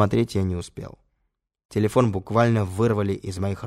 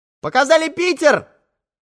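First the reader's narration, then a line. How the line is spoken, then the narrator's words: Girl shouting into phone. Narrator (Russian): кричала в трубку телефона девушка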